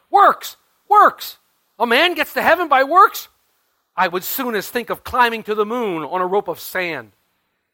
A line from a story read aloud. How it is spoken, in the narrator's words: he cried out in a tone of thunder